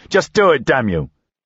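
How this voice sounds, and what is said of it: Raised, shouting voice. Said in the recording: “I raised my voice.”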